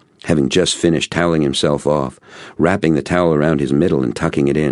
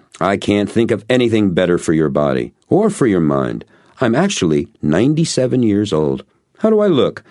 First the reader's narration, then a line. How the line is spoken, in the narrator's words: he laughed another of his boomers, only this one seemed deeper by an octave or two